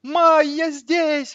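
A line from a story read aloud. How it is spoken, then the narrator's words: Many voices yelling. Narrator (Russian): вопили сразу с нескольких сторон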